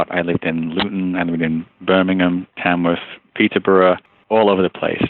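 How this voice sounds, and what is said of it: Faded Northern English accent. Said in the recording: “the base of my accent, if you will, is from Liverpool... accent was a bit of a mishmash of various things. And now I've got just enough English accent left for Canadians to say, he's not from here... people just accuse me of being American... identify that I'm from Northern England... somewhere between sort of Liverpool, Manchester-ish area”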